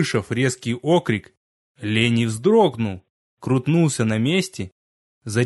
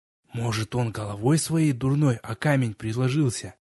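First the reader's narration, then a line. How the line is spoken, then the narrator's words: Quiet speculation. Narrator (Russian): тихо предположил Литос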